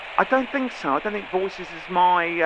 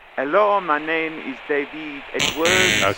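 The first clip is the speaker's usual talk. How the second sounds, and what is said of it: Not very good French accent. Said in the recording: “I could do some French, a French accent ... So it's not as good.”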